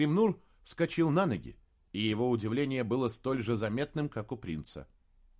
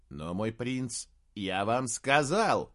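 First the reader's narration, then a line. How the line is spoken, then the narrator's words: Snorting. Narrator (Russian): фыркнул Девассаль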